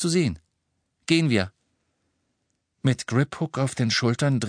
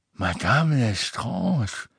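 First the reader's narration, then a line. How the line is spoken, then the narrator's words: Submissive murmur. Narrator (German): murmelte unterwürfig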